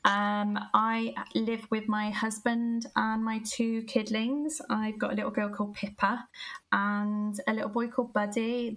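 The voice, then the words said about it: Gloucester English regional accent. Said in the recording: “I am originally from Gloucester. You can probably tell by the accent.”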